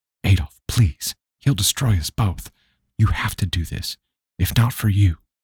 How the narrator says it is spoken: she whispered with short breaths

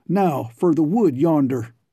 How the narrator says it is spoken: Baldy Bicknell took the lead, exclaiming

